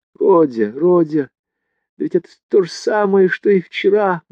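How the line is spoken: Sorrowful exclamation. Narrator (Russian): горестно воскликнула Пульхерия Александровна

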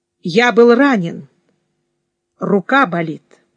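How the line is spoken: Forced calm answer. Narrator (Russian): я, напрягаясь из последних сил, спокойно ответил

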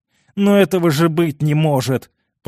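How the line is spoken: Groaning, helpless. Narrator (Russian): простонал Карл

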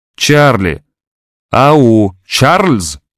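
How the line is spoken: Old woman shouting. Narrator (Russian): кричала старуха

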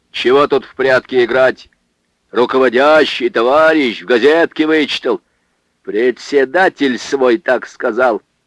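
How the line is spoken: Furious yell. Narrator (Russian): Михаил заорал вне себя

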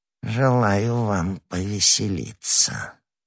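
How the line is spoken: Sepulchral voice. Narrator (Russian): отвечал Бонасье за могильным голосом

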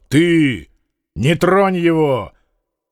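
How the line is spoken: Loud, threatening. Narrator (Russian): Фома громко, угрожающе сказал

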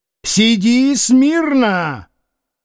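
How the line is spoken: Stern shout. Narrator (Russian): сурово крикнул крестный

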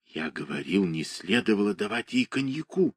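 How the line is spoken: Annoyed whisper. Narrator (Russian): шепнул с досадой Владимир Никитович

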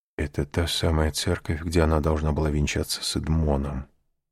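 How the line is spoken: Whisper. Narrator (Russian): прошептал аббат

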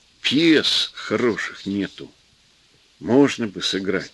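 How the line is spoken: Quiet. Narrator (Russian): сказал он негромко

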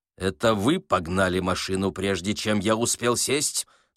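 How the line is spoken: Menacing commander's question. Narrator (Russian): спросил командор грозно

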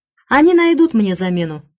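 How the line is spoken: Cheerful young woman. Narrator (Russian): бодро сказала девушка

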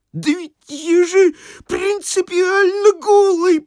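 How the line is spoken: Sobbing babble. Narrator (Russian): пролепетал Никудыкин, рыдая

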